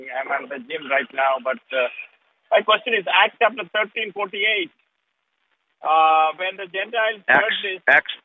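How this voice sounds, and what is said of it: Noticeable non-native accent. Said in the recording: “Last time I cannot understand my accent, but I'm trying.”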